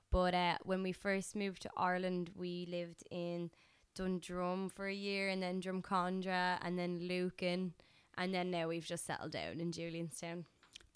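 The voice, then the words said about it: Slight Dublin Irish accent. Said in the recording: “you have a little bit of a Dublin accent”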